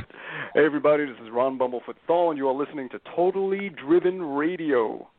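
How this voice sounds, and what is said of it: Polished radio announcer voice. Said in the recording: “He's a good radio voice.”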